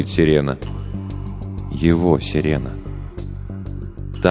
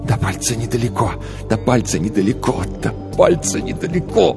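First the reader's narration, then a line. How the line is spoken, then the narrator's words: Repeated incantation-like whisper. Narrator (Russian): Тил шептал одну и ту же фразу, словно заклятие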